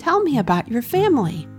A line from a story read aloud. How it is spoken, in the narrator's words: Wilbur asked Sunny excitedly